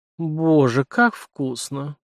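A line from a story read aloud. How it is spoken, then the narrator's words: Moaned. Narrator (Russian): простонала Аннабель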